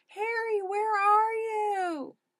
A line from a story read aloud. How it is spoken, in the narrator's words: Harry groaned